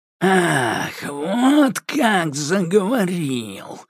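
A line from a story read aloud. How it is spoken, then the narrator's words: Spiteful hiss. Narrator (Russian): злобно прошипел он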